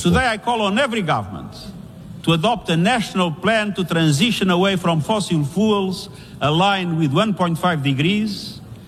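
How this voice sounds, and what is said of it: Strong non-native English accent. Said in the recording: “the accent's a little rough”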